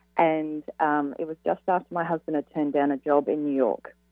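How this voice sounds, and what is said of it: Australian accent. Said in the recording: “accent from? Australian accent. ... it's beautiful ... it's really beautiful”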